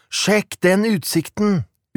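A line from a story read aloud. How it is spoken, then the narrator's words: Exclaiming. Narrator (Norwegian): utbrøt Jonas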